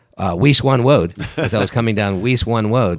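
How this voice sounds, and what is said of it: Elmer Fudd impression. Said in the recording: “who's the cartoon character that was always chasing after Bugs Bunny? ... Elmer Fudd.”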